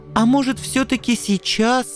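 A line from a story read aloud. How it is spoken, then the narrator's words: Pleading. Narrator (Russian): взмолился Анцифер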